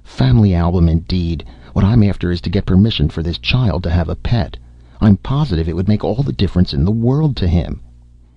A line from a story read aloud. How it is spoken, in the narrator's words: Aloud, she snapped